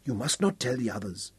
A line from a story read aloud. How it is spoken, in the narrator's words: she murmured